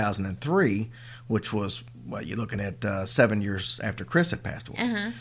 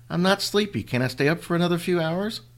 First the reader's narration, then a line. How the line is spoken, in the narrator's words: whined